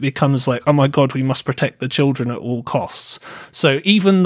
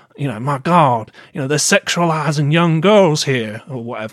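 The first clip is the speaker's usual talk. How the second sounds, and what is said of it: Put-on accent. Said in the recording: “I don't know why I did that accent”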